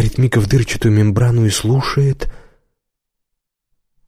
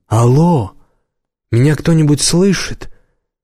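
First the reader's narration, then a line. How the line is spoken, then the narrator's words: Uncertain repetition. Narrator (Russian): Мика неуверенно повторяет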